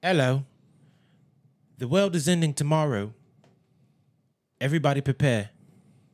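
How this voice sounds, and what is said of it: Put-on British accent. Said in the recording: “White man in a suit with a British accent”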